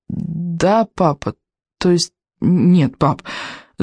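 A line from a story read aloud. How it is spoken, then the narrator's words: Stammering reply. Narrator (Russian): заикаясь, ответил Икинг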